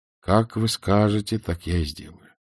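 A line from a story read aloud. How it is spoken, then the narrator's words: Gloomy. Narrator (Russian): сказал он мрачно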